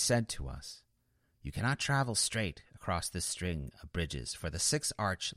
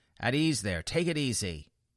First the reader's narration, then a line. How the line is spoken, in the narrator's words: the devil who had spoken with my guide was quick to spin around and scream an order